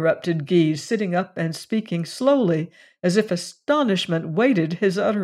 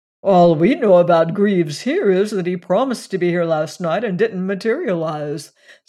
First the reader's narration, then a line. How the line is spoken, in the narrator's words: said Gawtry with a yawn